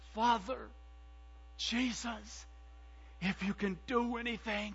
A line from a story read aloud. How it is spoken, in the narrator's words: cried out